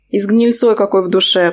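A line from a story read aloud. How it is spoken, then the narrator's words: Grumbling. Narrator (Russian): проворчала я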